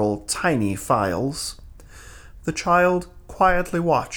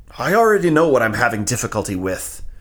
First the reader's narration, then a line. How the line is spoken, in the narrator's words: Venk snapped